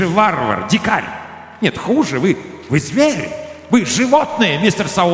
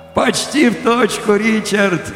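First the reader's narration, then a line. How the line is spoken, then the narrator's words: Laughed merrily. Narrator (Russian): весело засмеялся я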